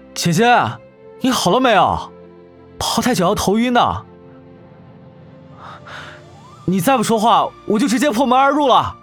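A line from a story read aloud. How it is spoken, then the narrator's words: Frustrated loud shouting. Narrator (Chinese): 谢之方越发的沮丧，高声叫嚷道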